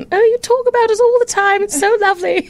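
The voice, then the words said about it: Put-on British accent. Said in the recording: “my mother with a British accent.”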